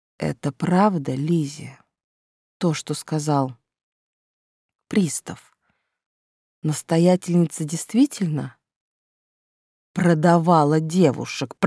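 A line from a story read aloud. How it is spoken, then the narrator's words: Hoarse croak. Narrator (Russian): прохрипел сэр Николас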